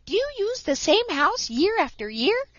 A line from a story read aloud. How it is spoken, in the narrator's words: piped up Striped Chipmunk